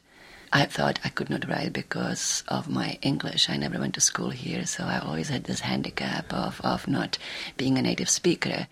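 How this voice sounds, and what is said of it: Czech accent. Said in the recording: “You can hear her accent. She's Czechoslovakian.”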